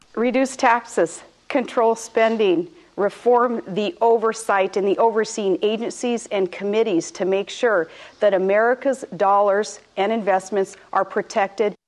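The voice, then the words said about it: Sarah Palin, northwestern Alaskan accent. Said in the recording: “Is that an Alaskan accent? ... Yes, she's a stone Alaskan ... This is a northern dialect, a northwestern dialect.”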